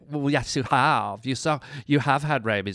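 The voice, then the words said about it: Valley girl voice. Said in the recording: “in my valley girl voice”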